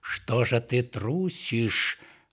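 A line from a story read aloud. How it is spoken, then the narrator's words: Angry growling voice. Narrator (Russian): рычал злой голос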